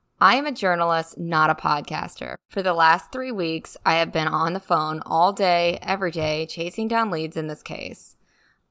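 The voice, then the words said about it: Speaks with vocal fry. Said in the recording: “vocal fry ... Ugh, I hear it.”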